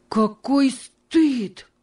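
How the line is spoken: Exclaimed. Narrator (Russian): воскликнул он

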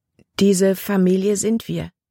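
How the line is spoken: Plain question. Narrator (German): fragte Libby

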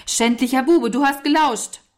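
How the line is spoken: Shout. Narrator (German): Walter rief

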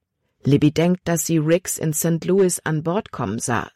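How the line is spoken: Plain. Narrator (German): sagte Caleb

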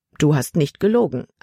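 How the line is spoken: Plain answer. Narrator (German): antwortete sie

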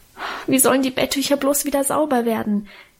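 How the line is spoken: Wailing. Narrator (German): jammerte ich

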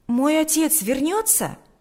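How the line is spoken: Exclaimed. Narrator (Russian): воскликнул Сережа

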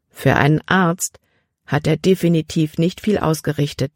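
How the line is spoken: Plain. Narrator (German): sagte Libby

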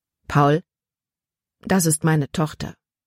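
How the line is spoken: Gentle. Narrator (German): sagte Papa sanft

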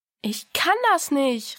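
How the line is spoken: Called out. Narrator (German): rief Diana

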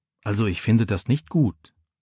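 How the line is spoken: Quiet disapproval. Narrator (German): sagt Micha leise

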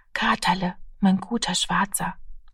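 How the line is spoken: Child's whisper. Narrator (German): flüsterte das Kind

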